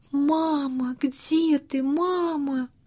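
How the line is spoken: Tearful whisper. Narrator (Russian): плакал и шептал

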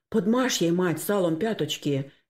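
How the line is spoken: Frightened speech. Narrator (Russian): испуганно проговорил Максим

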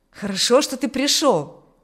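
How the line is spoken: Exclaiming. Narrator (Russian): воскликнул Аурелий

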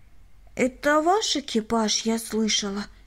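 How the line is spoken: Plain. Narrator (Russian): спросила она

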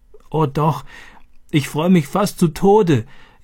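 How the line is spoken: Gasping, laughing and crying. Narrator (German): japste sie und lachte und weinte gleichzeitig

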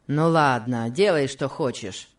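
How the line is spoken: Rude tone. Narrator (Russian): сказал он Касси грубым тоном

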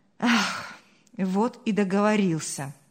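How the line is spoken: Sighing. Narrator (Russian): вздохнул Павел

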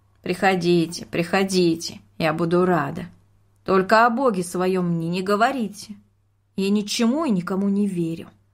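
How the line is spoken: Warm, smiling. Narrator (Russian): вдруг улыбнулась и сказала

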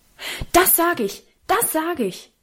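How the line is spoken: Very loud call. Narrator (German): rief Karl so laut, dass wir alle erschrocken zischten

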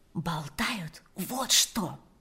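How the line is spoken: Whisper. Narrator (Russian): прошептала Ирина

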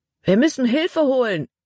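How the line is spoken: Call. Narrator (German): rief Caleb

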